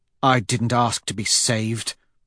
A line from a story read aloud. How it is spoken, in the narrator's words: she says bitterly